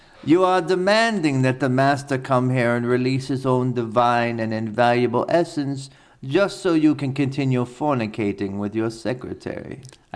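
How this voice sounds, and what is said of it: Fake German accent, Christoph Waltz impression. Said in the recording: “I have to do it in the fake German accent ... imagine it's a Cajun German ... poor man's Christoph Waltz”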